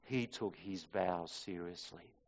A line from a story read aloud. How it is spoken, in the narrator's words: a waitress quietly remarked